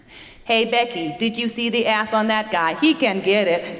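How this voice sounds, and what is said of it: Sassy robot character voice. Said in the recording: “a character called Sassy Robot”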